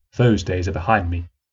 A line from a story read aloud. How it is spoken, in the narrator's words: reasoned coldly